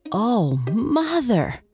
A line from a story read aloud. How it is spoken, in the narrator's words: exclaimed Archie